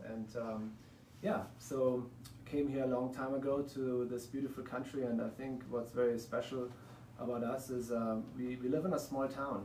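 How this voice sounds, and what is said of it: German accent. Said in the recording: “from the accent you probably can hear, I'm not from the United States, I'm from Germany”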